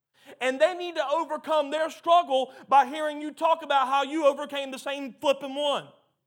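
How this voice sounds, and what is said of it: Yelling, loud preaching voice. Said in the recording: “why I'm yelling so much tonight”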